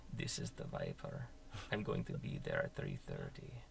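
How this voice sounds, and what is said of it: Thick accent character voice. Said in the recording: “This guy with like a thick ac- accent”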